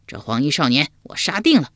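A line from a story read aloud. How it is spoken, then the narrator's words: Loud declaration. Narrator (Chinese): 秋亚高声说道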